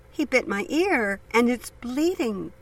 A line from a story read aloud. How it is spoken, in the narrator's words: cried Shirley